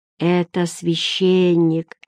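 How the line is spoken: Lazy whisper. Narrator (Russian): лениво прошептал Эггард

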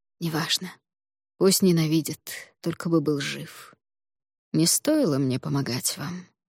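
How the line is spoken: Tired remark. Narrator (Russian): устало заметил господин Ло

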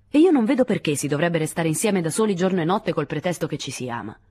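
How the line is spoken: Brusque voice. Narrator (Italian): disse Lewis con voce brusca

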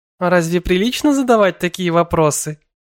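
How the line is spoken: Laughing. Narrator (Russian): Эвелина рассмеялась

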